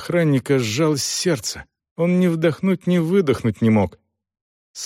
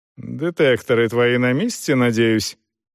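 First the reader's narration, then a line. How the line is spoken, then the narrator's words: Mocking question. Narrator (Russian): насмешливо спросила она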